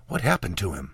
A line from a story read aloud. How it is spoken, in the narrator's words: whispered